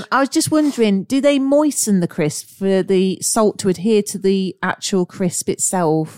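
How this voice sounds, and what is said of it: Slipping into a Cockney accent. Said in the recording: “I'm talking more Cockney when I talk to you.”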